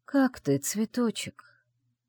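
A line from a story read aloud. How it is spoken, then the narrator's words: Muffled mutter. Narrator (Russian): пробормотал в ее макушку Шейсалех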